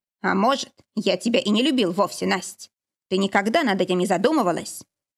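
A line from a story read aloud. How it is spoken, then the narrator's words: Sudden sharp question. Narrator (Russian): Вдруг резко спросил Валентин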